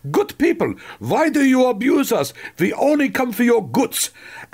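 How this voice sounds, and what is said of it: Exaggerated thick German accent. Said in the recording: “she did have a rather thick German accent ... when I do my impression of her, which is more like Sergeant Schultz from Hogan's Heroes”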